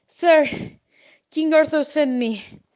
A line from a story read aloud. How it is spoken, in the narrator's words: exclaimed agitated